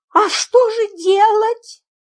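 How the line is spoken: Trembling question. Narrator (Russian): дрожащим голосом спросила мисс Фридлендер

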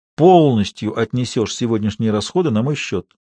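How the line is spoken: Quiet. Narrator (Russian): тихо сказал Ведерников

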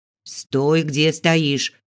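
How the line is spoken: Growl. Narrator (Russian): рыкнула Зига

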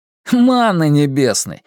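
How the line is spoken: Snorted after laughing. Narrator (Russian): фыркнул Василий, отсмеявшись

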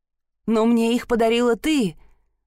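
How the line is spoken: Trembling voice, objecting. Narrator (Russian): дрожащим голосом возразил Гилберт

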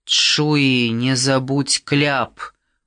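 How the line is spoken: Grumbling. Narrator (Russian): проворчал Фавре

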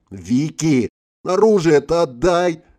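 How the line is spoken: Wailing. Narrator (Russian): взвыла

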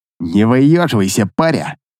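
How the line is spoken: Hissed close to ear. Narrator (Russian): прошипел мне на ухо Шило

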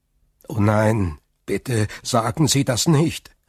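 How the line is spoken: Calling out. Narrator (German): rief Dantès

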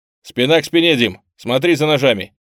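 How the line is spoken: Tense shout. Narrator (Russian): Со сжатыми кулаками и с тяжелым ощущением неравного боя я повернулся к Диме и крикнул

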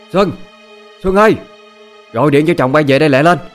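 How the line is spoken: Angry loud calling. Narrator (Vietnamese): Quá tức giận, má lớn tiếng

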